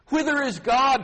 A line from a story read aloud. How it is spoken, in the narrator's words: cried